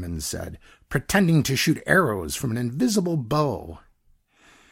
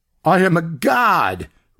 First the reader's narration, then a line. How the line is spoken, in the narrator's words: Rigby shouted